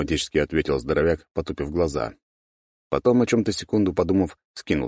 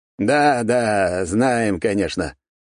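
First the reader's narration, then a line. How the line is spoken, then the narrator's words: Snorting. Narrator (Russian): хмыкнул маг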